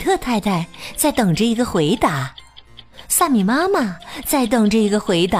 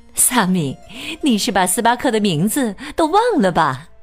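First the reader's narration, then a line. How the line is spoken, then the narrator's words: Joking mother. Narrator (Chinese): 萨米妈妈开玩笑的说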